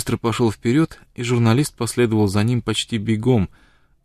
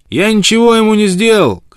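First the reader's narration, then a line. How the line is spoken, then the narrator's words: Shout from outside. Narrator (Russian): крикнул он, не успев еще войти в палатку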